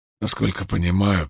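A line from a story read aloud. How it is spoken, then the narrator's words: Whisper. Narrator (Russian): прошептал он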